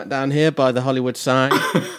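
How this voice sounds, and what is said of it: Put-on American accent. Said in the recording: “doing some American accents”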